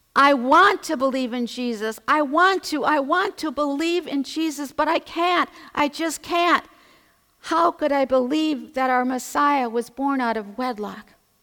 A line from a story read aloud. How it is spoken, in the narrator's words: she was very animated, and she was crying out loudly